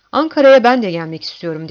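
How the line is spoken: Determined voice. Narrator (Turkish): dedi kararlı bir sesle

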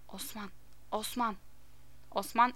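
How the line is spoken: Whispered aside to child. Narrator (Turkish): parantez içinde çocuğuna fısıldayarak

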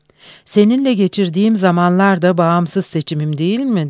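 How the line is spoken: Soft, affectionate voice. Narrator (Turkish): dedi yumuşacık, sevecen bir sesle

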